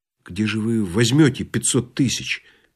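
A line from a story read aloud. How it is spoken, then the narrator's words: Quiet question. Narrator (Russian): тихо спросил Балаганов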